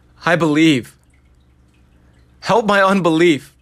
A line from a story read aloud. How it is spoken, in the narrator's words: the father of the child cried out with tears